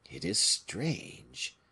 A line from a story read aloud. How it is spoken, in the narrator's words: muttered another